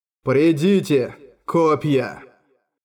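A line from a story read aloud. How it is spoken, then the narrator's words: Muffled voice. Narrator (Russian): Глухо произнес Артур Гас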